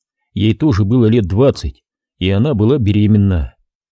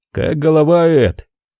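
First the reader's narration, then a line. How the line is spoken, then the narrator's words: Hoarse expressionless question. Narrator (Russian): спросил он хриплым голосом и без всякого выражения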